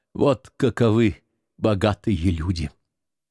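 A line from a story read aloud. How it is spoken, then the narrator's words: Muttered. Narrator (Russian): Жульен только бормотал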